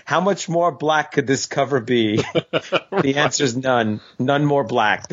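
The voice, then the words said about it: Imitates a film character's voice. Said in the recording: “my impression.”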